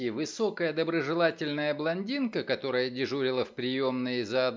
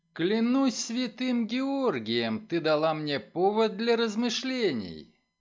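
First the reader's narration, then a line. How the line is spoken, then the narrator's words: Laughing. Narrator (Russian): Делла рассмеялась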